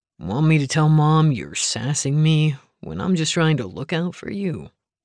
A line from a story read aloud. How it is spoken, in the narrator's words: chuckled